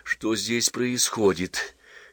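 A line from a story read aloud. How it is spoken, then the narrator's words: Quiet question. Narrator (Russian): тихо спросил Половинкин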